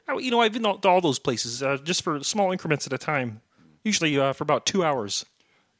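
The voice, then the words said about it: Hard-to-place mixed accent, not Manhattan. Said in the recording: “your accent just it. Doesn't it kind of seem familiar? ... I can't place it ... It doesn't sound like Manhattan ... my accent is like a kind of a bit of a hodgepodge of all the places that I've been”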